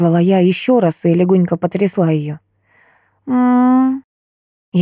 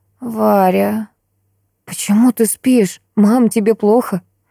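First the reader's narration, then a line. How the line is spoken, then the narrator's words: Weak moaning. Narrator (Russian): Снова простонала она, пытаясь приподняться, но, очевидно, сил на это у нее не хватало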